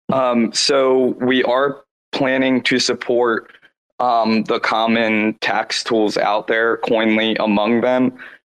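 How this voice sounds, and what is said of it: Scratchy voice. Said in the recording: “my voice is a little scratchy here”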